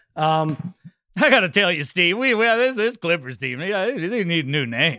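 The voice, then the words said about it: Cris Collinsworth impression. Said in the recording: “your Chris Collinsworth impersonation”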